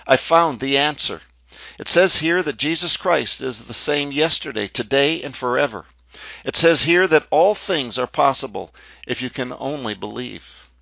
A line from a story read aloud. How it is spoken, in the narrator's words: very excited, she exclaimed